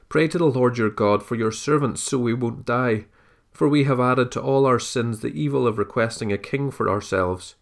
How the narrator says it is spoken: They pleaded with Samuel

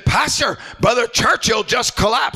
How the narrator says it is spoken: somebody hollered at me and said

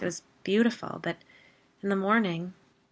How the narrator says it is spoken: Whitney sighed

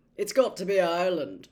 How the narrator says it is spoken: said Charlie thickly through a mouthful of potato

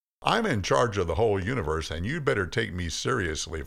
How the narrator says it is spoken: voice, God said

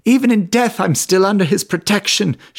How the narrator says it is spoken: cried out

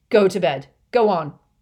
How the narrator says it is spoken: he snarled at Harry

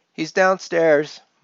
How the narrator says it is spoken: yelled back

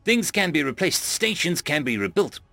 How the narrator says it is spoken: I shouted myself

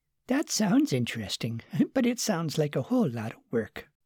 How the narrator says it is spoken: Margaret said with a little chuckle

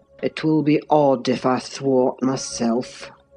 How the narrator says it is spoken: he muttered, unconscious that I was behind him

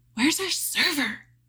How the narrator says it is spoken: whispered

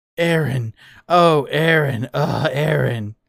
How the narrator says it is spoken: he moaned passionately as if mid-orgasm

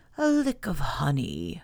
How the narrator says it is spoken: murmured to himself

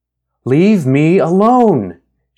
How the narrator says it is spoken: she shouted

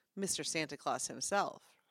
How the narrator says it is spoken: her voice was sarcastic

